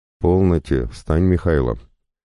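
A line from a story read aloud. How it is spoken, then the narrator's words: Stern yet tender mother's command. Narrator (Russian): Строгим, но в то же время кажущимся нежным голосом повелела матушка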